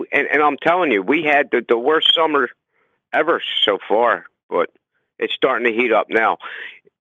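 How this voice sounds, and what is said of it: Strong New Jersey accent. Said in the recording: “you have the most legitimate Jersey accent I've heard in a long time. It is impressive hell.”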